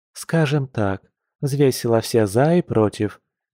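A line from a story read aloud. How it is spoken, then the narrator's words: Soft female snort. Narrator (Russian): мягко хмыкнула женщина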